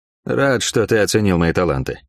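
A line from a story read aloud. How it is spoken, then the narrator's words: Dry. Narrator (Russian): сухо сказал я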